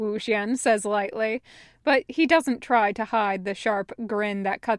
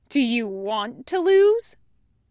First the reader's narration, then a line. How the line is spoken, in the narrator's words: Wei Wuxian scoffs